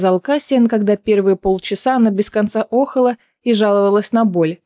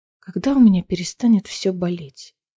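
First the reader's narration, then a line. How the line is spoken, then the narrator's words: Near-whispered question. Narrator (Russian): Почти шепотом спросила она Кассиана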